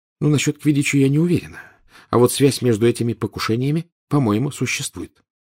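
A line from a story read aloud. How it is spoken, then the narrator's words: Quiet. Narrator (Russian): тихо сказала Гермиона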